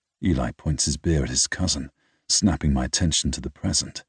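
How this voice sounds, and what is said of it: Usual voice. Nothing is said of it.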